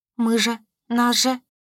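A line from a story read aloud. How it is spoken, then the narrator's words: Frightened babble. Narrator (Russian): Пролепетала испуганно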